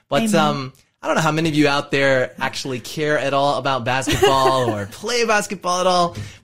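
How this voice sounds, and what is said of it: American Californian accent. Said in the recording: “you all can hear my accent. You can tell that I am American. I happen to be from California”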